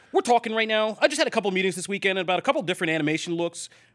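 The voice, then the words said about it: Imitates another person's voice. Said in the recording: “I'll try to do it in my best Todd voice.”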